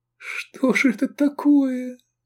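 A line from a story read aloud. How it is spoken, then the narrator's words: Trembling voice. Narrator (Russian): дрожащим голосом проговорила Овидия Негрина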